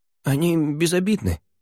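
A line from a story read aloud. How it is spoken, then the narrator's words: Mumbling young man. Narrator (Russian): промямлил парень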